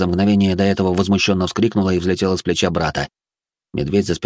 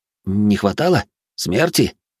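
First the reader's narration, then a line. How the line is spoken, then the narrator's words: Surprised breath. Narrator (Russian): Удивленно выдохнул Алис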